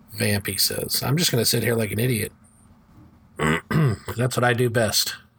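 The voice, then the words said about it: Sick, congested-sounding voice. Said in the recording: “I have a cold.”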